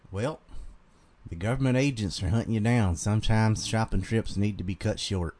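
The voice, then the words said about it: Put-on Southern Carolina accent. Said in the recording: “read this with your thickest southern accent ... I can't do it too thick. I can just do my normal Carolina one.”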